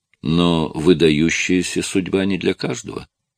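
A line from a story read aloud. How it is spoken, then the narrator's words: Plain. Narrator (Russian): сказала Скарлетт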